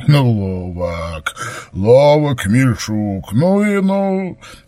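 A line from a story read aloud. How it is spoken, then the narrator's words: Merry laughing. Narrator (Russian): Старшой вновь залился веселым хохотом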